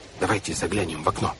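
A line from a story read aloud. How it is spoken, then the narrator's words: Whispered. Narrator (Russian): прошептал Клаус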